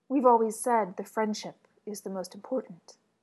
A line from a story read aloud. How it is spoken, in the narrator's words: said Elliot